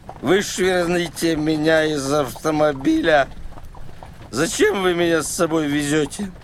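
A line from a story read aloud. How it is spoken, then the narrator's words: Muttering. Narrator (Russian): забормотал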